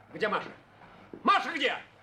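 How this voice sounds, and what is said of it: Shouting. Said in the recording (Russian): “Не кричите!”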